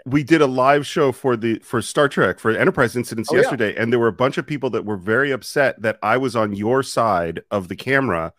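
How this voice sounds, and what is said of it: Congested, stuffed-up voice. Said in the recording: “You sound a little stuffed up... as you can hear from my voice”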